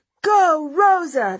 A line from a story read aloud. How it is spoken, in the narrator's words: they shout